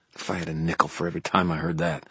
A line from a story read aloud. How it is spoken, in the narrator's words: I muttered